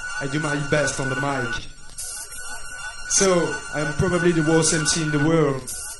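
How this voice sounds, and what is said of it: Speaker's funky accent. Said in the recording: “my funky accent”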